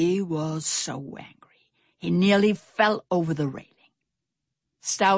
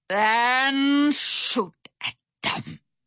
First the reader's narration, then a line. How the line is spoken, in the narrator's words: Barracuda Bill growled